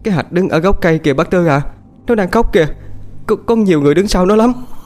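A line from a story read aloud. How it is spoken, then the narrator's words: Trembling, frightened. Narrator (Vietnamese): Cô chim run run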